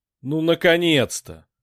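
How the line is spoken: Joyless snort. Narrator (Russian): невесело хмыкнул Вик

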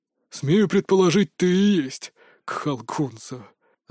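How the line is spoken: Pained breathless exhale. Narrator (Russian): выдохнул трибун, придерживаясь за сломанную руку

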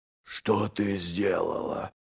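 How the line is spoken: Whisper. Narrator (Russian): прошептал Доздувой

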